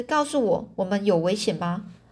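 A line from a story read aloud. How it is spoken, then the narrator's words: Plain. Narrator (Chinese): 这英法杜斯说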